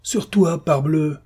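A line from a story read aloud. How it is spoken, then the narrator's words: Sneering. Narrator (French): ricana Siméon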